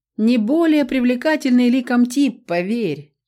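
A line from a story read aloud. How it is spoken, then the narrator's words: Loud laughter. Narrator (Russian): расхохотался Лаша Ваир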